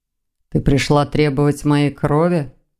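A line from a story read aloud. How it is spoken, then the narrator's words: Gloomy inquiry. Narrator (Russian): мрачно осведомился он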